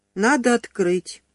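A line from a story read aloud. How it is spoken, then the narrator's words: Sighing. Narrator (Russian): вздохнула Юлечка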